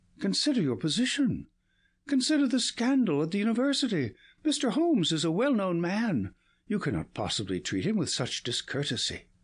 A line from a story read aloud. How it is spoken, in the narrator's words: he cried